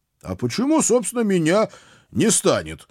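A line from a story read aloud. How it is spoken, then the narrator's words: Loud panicky question. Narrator (Russian): громко спросил я, с каждым словом поражаясь собственным паническим настроением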